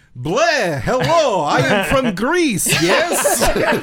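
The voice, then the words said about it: Bad mock Greek accent. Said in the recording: “no actor in the entire thing could do a Greek accent.”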